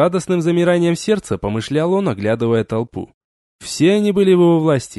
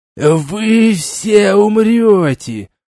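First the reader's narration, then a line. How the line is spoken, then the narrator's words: Loud hiss. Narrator (Russian): громко прошипел посланник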